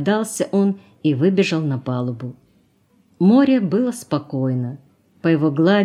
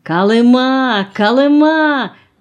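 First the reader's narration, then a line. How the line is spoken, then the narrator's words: Joyful shouting. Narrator (Russian): кричал радостно кто-то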